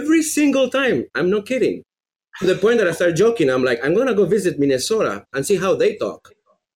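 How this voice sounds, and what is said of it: Heavy Venezuelan Spanish accent, fast talker. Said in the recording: “this guy has a heavy accent ... Venezuela ... you are a very fast talker”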